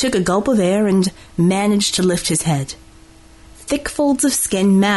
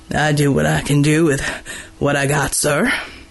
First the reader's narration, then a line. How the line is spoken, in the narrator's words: Gordy replied with a wheeze